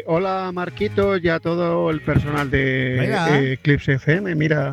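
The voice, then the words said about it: Spain Spanish accent. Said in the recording (Spanish): “Nos vamos a España ... Con el acento, tío”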